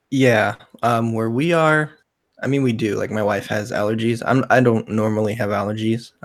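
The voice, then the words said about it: Congested, husky cold-affected voice. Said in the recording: “I got the sexy voice going ... cold. A lot just of cold. Head and chest congestion.”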